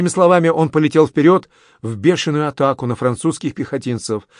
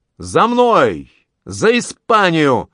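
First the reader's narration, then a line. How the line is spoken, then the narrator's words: Young man shouting. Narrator (Russian): Легко и уверенно молодой граф крикнул своей коннице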